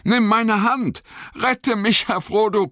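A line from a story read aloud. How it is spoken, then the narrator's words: Panting. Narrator (German): keuchte Sam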